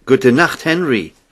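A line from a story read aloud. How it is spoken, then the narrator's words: Call out. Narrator (German): rief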